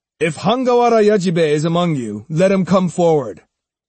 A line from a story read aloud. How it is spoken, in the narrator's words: Musashi took them unawares by shouting